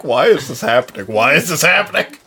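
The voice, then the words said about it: Imitates another person's voice. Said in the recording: “Why does everyone do that voice when they impersonate?”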